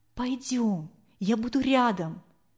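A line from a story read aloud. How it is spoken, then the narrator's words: Whisper. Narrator (Russian): Анфиса зашептала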